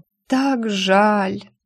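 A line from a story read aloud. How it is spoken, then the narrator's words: Moaning then hopeful whisper. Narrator (Russian): простонала и с надеждой прошептала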